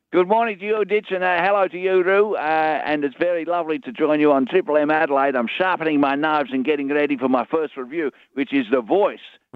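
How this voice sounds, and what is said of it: Put-on Dutch accent. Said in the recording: “I'm just detecting an accent there. Are you from Holland? ... my mum's from Holland ... I just want to perpetuate the accent because culturally, it's a beautiful accent”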